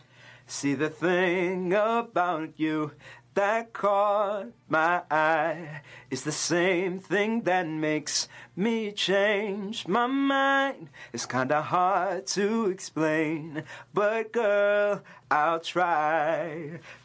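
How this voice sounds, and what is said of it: Sung imitation of another person's voice. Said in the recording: “Usher ... Vocal impersonation.”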